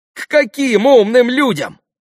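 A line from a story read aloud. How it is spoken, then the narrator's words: Excited exclamation. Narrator (Russian): почти в азарте воскликнул Алеша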